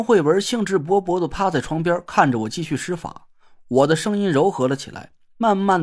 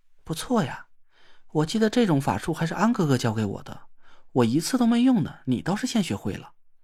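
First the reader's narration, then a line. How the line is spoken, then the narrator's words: Admiring whisper. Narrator (Chinese): 他赞赏的在我耳边悄声说了一句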